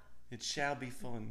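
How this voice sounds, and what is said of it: Poor put-on British accent. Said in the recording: “I'm gonna try to answer today's question in a British accent... He thinks he has a British accent... It sounds horrible.”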